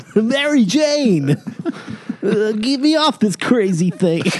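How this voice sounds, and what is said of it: Cartoon Spider-Man character voice. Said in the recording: “Do the voice. ... do Spider-Man's voice. ... He's good. You got the goods, kid.”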